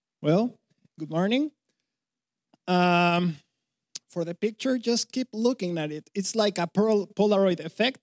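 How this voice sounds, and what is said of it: Mexican Spanish-accented English. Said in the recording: “Funny accent? Yes, that's why, because I'm from Mexico ... she thinks I sound funny”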